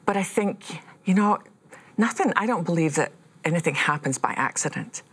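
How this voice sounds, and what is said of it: Woman with a noticeable accent. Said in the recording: “who's that woman with a funny accent?”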